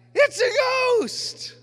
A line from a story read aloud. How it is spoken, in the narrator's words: In their fear, they cried out